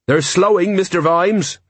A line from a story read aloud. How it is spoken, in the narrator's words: Jenkins called out